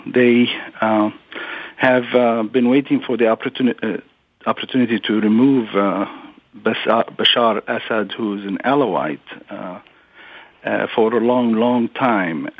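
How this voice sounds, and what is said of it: Middle Eastern accent. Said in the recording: “I am from the region, as you may have been able to tell from my accent”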